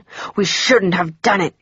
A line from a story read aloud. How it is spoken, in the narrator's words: he hissed in fear